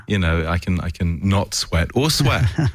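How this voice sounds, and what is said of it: Fake British accent. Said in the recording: “speak with that fake British accent.”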